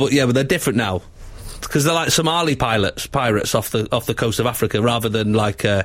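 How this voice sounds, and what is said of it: Usual voice. Nothing is said of it.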